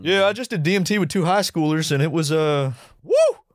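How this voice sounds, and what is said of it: Put-on Southern accent. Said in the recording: “Did you give him a southern accent?”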